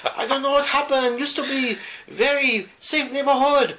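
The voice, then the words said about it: Exaggerated stereotyped mock accent. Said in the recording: “forgive me for my... horrifically racist accent.”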